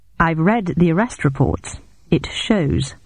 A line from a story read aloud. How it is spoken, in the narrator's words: I replied coldly